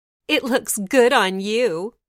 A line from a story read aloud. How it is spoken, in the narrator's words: the stepsisters cackled